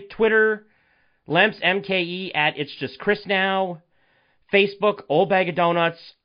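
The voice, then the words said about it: Voice sounds a little rough. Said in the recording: “apologize for my voice... my voice does sound a little different, I'm still recovering... My voice still may sound a little effed up”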